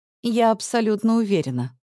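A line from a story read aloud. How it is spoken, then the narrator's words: Calm. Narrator (Russian): спокойно отвечаю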